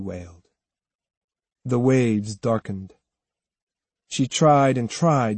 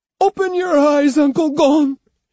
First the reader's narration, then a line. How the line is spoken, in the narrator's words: she pleaded